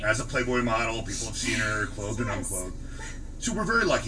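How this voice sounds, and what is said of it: Deep, welcoming salesman's voice. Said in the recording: “You actually have a really good voice. You have almost a salesman's voice ... you got that deep voice ... you got the deep, welcoming voice”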